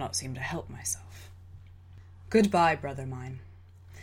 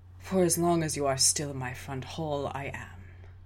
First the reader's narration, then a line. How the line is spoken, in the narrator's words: he sighed